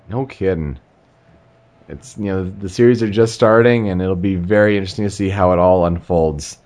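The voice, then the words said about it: Deep, congested voice with a cold. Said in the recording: “for my cold and stuffy nose and everything in the deep voice”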